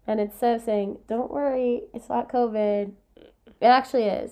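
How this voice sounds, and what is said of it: Sick-sounding voice. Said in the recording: “If you can't tell by my voice, I'm uh. sick.”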